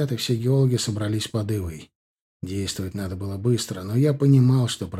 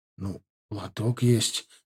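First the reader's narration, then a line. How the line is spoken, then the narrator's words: Hesitant geologist. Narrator (Russian): неуверенно сказал геолог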